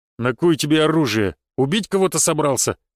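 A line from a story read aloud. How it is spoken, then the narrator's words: Big man's deep bass. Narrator (Russian): пробасил здоровяк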